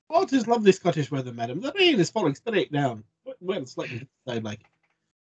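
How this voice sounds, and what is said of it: Scottish-style character impression. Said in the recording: “That's my William Wallace impression.”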